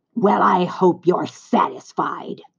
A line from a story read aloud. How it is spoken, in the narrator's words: sneered the rat